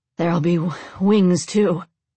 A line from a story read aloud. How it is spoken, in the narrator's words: Alex grunted